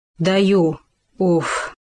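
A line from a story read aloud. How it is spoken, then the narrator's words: Bear's relieved exhale. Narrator (Russian): выдохнул медведь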